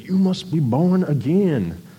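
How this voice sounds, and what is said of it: Put-on American Southern accent. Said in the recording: “Sorry, that was my best attempt at a Southern accent.”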